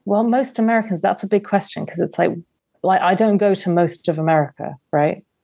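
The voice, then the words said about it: English accent. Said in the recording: “English accent”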